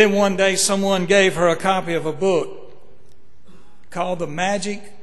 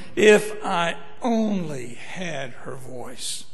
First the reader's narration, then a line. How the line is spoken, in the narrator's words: She would listen to a singer and moan and say